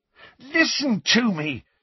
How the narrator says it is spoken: said Harry, almost angrily, because Ron and Hermione were both smirking now

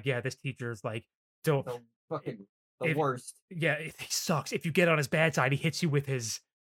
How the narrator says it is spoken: Taichi's like, starts like whispering to Koichiro

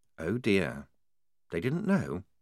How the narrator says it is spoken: said, very quietly

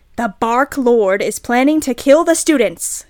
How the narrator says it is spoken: yelled Cornelia Fudge

